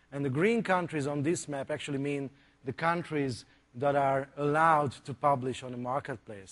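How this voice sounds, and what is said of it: Hungarian accent. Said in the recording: “the funny accent ... we're actually from Hungary”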